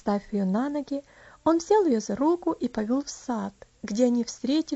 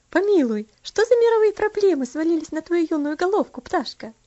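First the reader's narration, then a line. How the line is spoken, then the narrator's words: Laughing question. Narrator (Russian): спросила, смеясь, Аделейд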